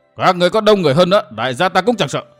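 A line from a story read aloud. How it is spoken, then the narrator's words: Furious loud shout. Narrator (Vietnamese): Thấy thuộc hạ bị tàn sát, Ân bổn thét lên một tiếng, miệng quát to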